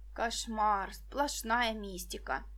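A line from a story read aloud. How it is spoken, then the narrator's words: Grumbled. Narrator (Russian): проворчала Виктоша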